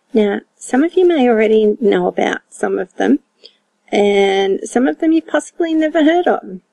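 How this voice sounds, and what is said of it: Australian accent. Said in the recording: “I'm an Aussie gal from Down Under, like you didn't already know that from the accent.”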